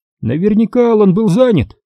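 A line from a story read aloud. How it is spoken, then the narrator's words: Cheerful. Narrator (Russian): весело проговорил Майерс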